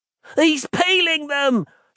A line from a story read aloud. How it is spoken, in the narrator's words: shouted Terry suddenly